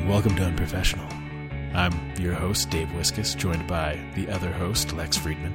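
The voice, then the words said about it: Smoky imitation of another person's voice. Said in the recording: “I like your voice today. ... I'm trying to do my Lex Friedman impression. I feel like I'm going too smoky with it, though.”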